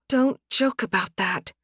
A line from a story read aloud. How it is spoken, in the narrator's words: Anna muttered